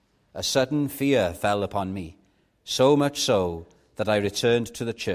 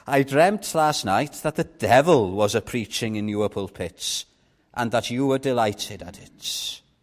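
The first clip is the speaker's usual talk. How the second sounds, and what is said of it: Attempted Cornish accent. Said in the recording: “I'm not very good at doing a Cornish accent.”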